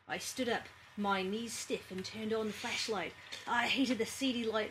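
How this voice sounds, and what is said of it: Subtle put-on Australian accent. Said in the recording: “I'm just doing a really bad job of it ... It's subtle, which is nice. It's not like the crikey, g'day, mate. It's an actual Australian accent.”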